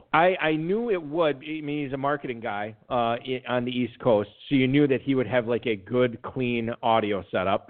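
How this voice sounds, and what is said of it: Wisconsin accent. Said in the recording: “stupid Wisconsin accent ... does my accent, does it come through ... oh, yeah, totally, it's terrible”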